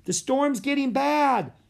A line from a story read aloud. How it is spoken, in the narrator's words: shouted Annie